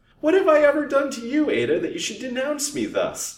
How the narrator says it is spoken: sobbed the widow

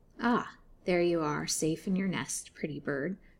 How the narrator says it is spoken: croaked she

